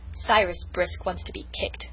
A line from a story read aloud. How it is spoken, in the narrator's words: growled Felix